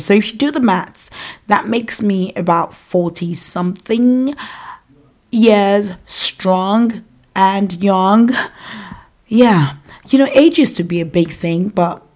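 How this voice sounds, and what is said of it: African (Nigerian) accent. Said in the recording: “I have an African accent because I was born and raised in Nigeria”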